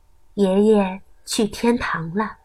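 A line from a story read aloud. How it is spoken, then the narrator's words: Mother, soft. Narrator (Chinese): 妈妈轻声告诉他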